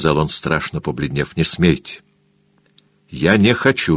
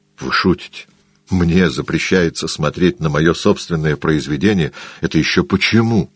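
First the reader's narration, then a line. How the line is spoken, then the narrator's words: Laughing exclamation. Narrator (Russian): воскликнул Холлорд со смехом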